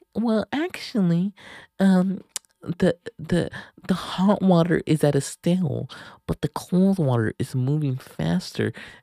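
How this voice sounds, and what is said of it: Mocking imitated woman's voice. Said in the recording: “in her bitch voice”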